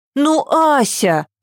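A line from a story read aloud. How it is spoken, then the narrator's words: Exclaiming. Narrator (Russian): воскликнула Ева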